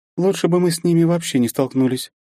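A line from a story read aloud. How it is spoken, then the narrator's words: Heavy resigned sigh. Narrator (Russian): тяжело вздохнула Вета, видимо, наконец смирившись с неизбежным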